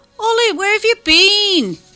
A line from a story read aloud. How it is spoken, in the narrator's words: chirps